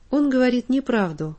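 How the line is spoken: Calm firm statement. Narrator (Russian): спокойно и твердо произнес Андрюша

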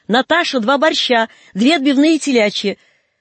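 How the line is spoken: Distant, loud, cheerful female shout. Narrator (Russian): звучный женский голос из глубины столовой бодро крикнул

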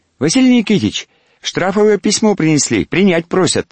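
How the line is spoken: Unexpectedly thin, high voice. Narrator (Russian): Неожиданно тонким голоском сказал он

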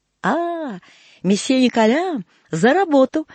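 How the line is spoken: Cheerful shout. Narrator (Russian): весело крикнул Дарсонвиль

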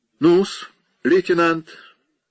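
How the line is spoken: Cheerful. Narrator (Russian): весело сказал капитан Феллоуз

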